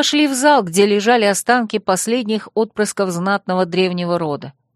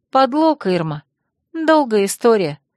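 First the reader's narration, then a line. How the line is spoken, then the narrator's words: Sad wry laugh. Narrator (Russian): грустно усмехнулась я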